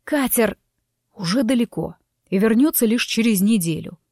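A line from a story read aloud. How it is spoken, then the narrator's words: Irritated, through gritted teeth. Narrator (Russian): раздраженно процедил оборотень, и его золотистые глаза вновь вспыхнули от ярости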